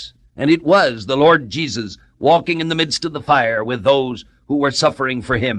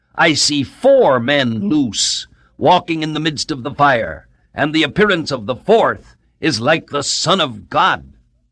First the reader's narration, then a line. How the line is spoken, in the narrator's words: And the king peered into the furnace and cried out in astonishment